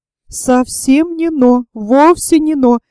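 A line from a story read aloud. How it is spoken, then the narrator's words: Exclaimed. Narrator (Russian): воскликнула Варвара Петровна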